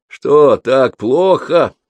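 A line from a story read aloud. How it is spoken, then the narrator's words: Laughing. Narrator (Russian): рассмеялась Карман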